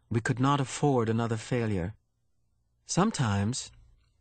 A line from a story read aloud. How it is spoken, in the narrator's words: she went on, speaking now in a lighter tone